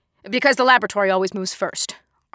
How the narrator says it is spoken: Arthur snapped

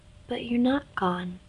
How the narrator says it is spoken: replied Nin in a soft voice

